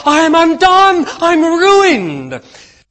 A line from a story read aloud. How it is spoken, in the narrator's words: he cried out in despair